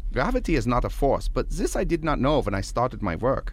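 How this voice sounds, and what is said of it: German accent. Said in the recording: “why the German accent? I mean, it sounds sort of familiar.”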